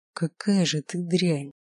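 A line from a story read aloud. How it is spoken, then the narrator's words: Quiet, venomous hatred. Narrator (Russian): Его голос звучал тихо, но ненависть, сочившаяся словно яд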